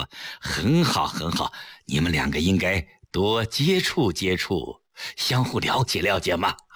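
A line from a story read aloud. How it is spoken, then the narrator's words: Smiling. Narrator (Chinese): 崔子昂微笑着说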